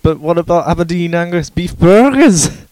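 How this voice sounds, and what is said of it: Put-on Scottish accent. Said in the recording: “Your Scottish accent is just tremendous ... your accent is remarkable”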